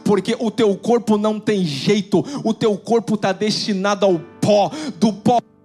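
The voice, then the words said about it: Preacher's voice. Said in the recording (Portuguese): “Eu só fiquei mais com voz de pregador, assim, né?”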